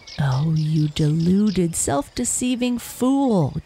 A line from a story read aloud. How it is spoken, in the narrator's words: jeered